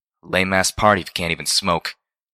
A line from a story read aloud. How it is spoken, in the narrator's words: Reggie grumbled